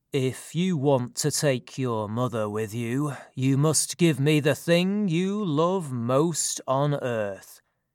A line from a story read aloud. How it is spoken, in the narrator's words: Hades replied in a slow and deep voice